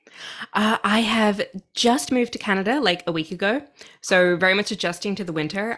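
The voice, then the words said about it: Australian accent. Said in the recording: “I'm Australian, if you can hear my accent.”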